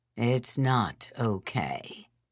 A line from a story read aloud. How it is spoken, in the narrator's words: he said wearily